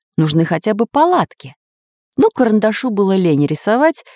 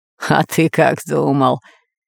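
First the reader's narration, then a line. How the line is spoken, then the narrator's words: Hoarse laughing. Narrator (Russian): хрипло засмеялся Буль-Буль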